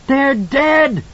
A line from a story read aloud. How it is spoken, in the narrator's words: Danny screamed in hysterical triumph